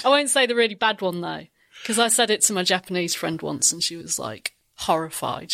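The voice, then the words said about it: Lincolnshire English accent. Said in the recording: “my Lincolnshire accent”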